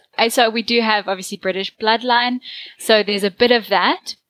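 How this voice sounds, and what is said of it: South African accent. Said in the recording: “I'm from South Africa, so I have a South African accent ... it's definitely a South African accent”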